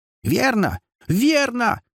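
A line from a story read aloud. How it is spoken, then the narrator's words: Shrieking possessed woman. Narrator (Russian): завизжала оклемавшаяся бесноватая Сара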